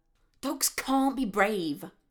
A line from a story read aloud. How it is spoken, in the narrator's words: snapped